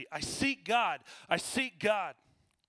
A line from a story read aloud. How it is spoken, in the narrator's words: that madman cried incessantly